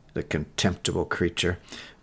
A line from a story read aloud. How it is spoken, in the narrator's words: The captain only muttered